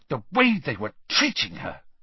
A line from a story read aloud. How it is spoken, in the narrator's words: said Hermione furiously